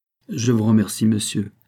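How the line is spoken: Plain. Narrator (French): dit André

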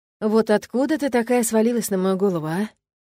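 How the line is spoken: Resigned sigh. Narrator (Russian): как-то обреченно вздохнул Фил

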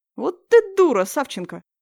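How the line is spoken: Smirking snort. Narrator (Russian): хмыкнул Вовка, веремейчик

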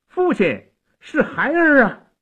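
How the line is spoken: Young man shouting upward. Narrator (Chinese): 城下的小将 向城上高喊

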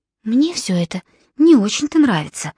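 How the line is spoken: Whispered. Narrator (Russian): шепнула ему Филиппа

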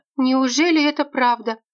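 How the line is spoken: Exclaimed. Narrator (Russian): воскликнула Альбина Юрьевна

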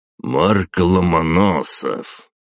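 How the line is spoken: Drawled by the emperor. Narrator (Russian): протянул император

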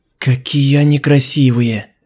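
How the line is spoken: Breathless awe. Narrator (Russian): выдохнула она

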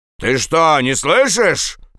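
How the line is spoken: Captain shouting. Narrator (Russian): закричал капитан

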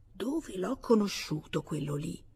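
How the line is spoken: Low muttering. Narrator (Italian): ripetendo a bassa voce

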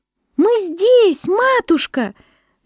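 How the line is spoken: Shouting in unison. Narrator (Russian): закричали они

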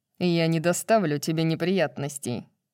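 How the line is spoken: Mocking. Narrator (Russian): насмешливо поклонившись, пообещал Тарион

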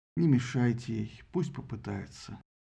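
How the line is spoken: Sighing. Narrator (Russian): вздохнул Зевс, сказал

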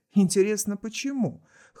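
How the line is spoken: Skeptical snort. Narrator (Russian): хмыкнул Даррелл

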